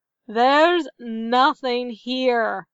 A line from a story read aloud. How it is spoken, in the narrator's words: another searcher growled